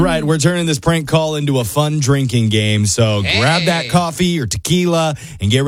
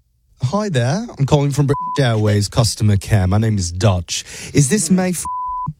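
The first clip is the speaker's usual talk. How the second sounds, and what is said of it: Deliberately bad British accent. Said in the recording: “my absolute worst British accent”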